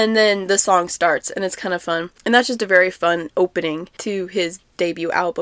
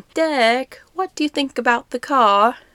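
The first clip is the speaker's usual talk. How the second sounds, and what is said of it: Poor attempt at British accent. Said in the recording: “That was a really failed attempt at a British accent.”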